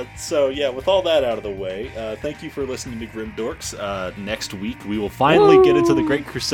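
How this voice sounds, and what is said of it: Usual voice. Nothing is said of it.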